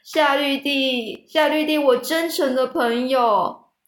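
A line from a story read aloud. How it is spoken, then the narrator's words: Sobbing, gasping, wretched crying. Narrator (Chinese): 啜泣的厉害，喘着气，凄惨的哭着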